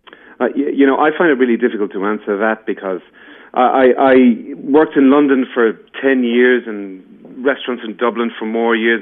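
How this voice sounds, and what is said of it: Irish accent. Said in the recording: “your accent is just getting me in the mood for St. Patrick's Day”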